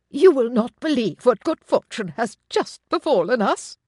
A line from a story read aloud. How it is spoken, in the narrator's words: cried Lady Balfour